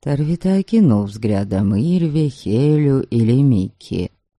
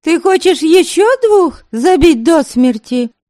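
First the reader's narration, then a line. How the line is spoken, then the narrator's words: Shouted. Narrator (Russian): крикнула Ильве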